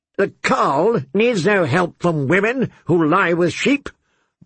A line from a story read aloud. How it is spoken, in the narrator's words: barked Kotho